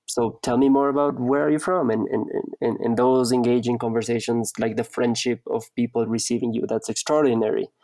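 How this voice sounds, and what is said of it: Foreign accent. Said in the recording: “you're obviously not from here because of your accent.”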